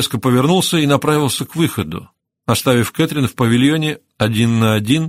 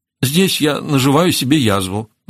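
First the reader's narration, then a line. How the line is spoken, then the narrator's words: Groaning. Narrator (Russian): застонал он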